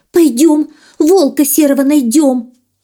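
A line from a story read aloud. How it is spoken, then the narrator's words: Trembling, squealing fox. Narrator (Russian): лиса мелкой дрожью задрожала, завизжала, говорит она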